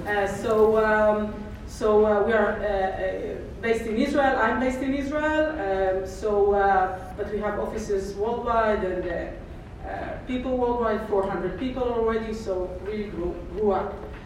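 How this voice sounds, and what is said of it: Israeli-accented English. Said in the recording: “Kornit is an Israeli-based, probably didn't figure out what is the wonderful accent, but I'm bringing the another flavor of accent.”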